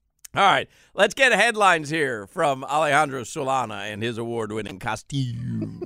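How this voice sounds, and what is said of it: Usual voice. Nothing is said of it.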